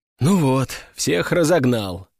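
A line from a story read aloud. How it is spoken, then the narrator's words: Sighing. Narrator (Russian): вздохнул Виктор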